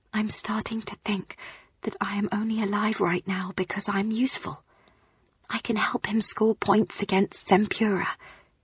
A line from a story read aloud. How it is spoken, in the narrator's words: I whispered